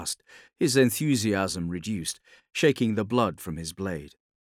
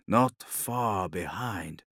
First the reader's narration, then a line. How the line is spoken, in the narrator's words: murmured